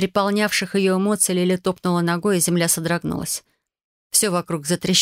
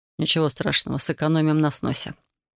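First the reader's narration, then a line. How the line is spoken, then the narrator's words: Calm, smiling. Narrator (Russian): Дэмиан лишь улыбнулся и спокойно сказал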